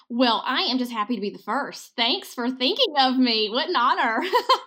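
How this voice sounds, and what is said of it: Southern American accent. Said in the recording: “that accent of yours ... an actual Southern feminist woman”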